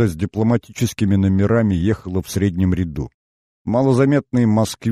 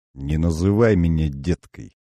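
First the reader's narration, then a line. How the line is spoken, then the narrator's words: Said through teeth. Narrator (Russian): процедила Фолк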